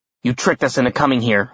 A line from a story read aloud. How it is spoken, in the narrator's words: I growled